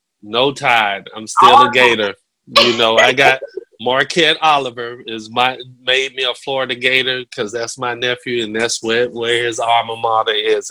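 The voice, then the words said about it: Southern American accent. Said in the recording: “I do have a Southern accent too”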